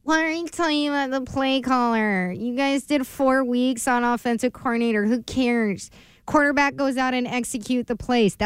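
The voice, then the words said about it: Imitates a radio caller's voice. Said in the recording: “That's what you guys sounded like. ... That's a good impression of the caller.”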